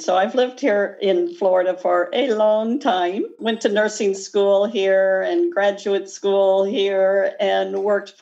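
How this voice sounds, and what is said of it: Slight Midwestern American accent. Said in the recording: “I like her accent. ... my accent is a bit Midwestern.”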